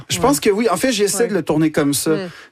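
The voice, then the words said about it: Québécois French accent. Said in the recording (French): “l'accent québécois ... le fait que tu dis avec cet accent”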